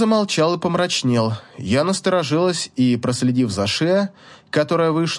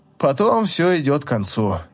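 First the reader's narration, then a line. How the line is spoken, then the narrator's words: Sad. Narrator (Russian): произнес он грустно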